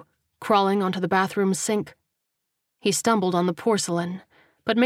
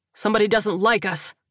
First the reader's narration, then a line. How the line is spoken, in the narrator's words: Terrell bellowed